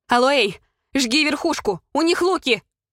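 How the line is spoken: Shout. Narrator (Russian): крикнула я

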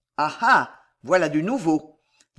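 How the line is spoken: Cold veteran voice. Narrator (French): dit froidement le vieux routier

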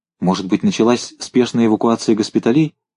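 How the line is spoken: Plain. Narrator (Russian): спросила Александра Владимировна

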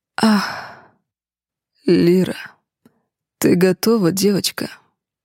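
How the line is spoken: Affectionate growl. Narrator (Russian): Ласково прорычал Рейгар

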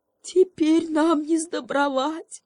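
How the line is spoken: Whimpering donkey. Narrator (Russian): захныкал осел

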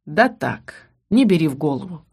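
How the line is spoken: Snorting. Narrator (Russian): хмыкнул Ас

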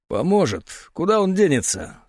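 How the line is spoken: Dry statement. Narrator (Russian): сухо заявил тот, кого назвали дуплетом

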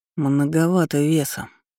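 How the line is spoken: Quiet, unpleasant. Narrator (Russian): негромко произнес противный Кайден Ричард

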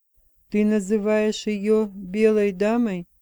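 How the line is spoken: Through clenched teeth. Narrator (Russian): процедил Джейми сквозь зубы

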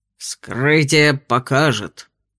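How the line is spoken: Gruff grunt. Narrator (Russian): буркнул на ее вопрос инспектор Вульф

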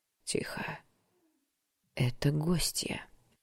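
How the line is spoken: Smooth male whisper. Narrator (Russian): шепот, мужской, плавный

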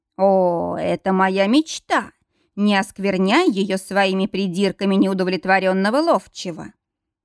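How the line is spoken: Snorting. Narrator (Russian): Мортон хмыкнул

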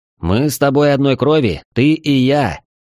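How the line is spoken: Shouted out. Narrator (Russian): я буквально выкрикнул

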